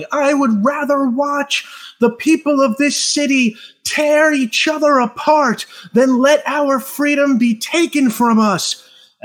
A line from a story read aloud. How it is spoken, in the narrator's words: shouting at his angry supporters, he's got a megaphone and he's yelling